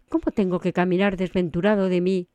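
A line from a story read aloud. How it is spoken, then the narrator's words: Plain. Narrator (Spanish): respondió Sancho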